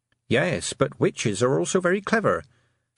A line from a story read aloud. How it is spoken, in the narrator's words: said Tiffany calmly